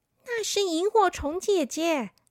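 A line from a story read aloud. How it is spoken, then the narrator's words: Soft. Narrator (Chinese): 他小声的说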